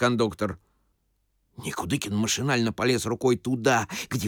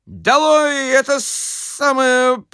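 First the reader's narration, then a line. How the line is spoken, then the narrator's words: Babbling mumble. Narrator (Russian): пролепетал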